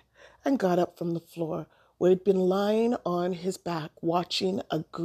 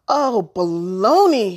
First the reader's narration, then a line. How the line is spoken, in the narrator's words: he called out